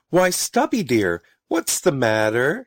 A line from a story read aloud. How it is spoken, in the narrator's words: she called sweetly